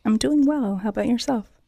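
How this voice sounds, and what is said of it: Soft, timid radio voice. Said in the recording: “Is that your radio voice? It's so, you get all ... timid ... She's got a good radio voice.”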